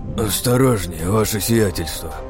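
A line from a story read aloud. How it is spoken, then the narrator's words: Dazed captain's groan. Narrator (Russian): простонал кое-как пришедший в себя капитан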